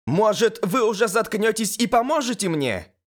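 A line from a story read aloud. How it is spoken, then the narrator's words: Shout. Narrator (Russian): крикнула Элис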